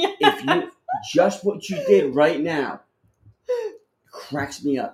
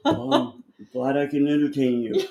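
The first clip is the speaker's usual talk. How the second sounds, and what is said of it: Impression of his father. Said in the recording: “That's a good impression of him.”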